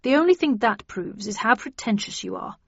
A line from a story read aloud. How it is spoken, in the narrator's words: muttered Perkins